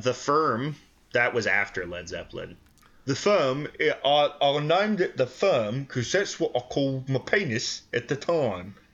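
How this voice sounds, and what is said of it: Imitates another person's voice. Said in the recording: “my Jimmy Page impression ... It's Michael Caine.”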